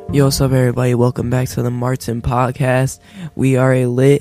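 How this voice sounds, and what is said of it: Sick, rough-sounding voice. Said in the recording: “I'm sick right now ... My voice might sound like really bad”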